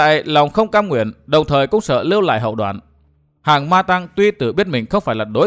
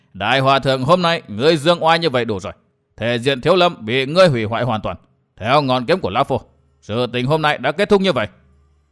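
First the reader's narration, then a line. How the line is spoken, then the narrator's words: Loud laughing speech. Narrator (Vietnamese): Tà kiếm cười lớn nói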